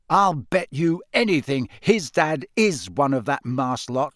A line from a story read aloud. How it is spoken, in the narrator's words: said Ron hotly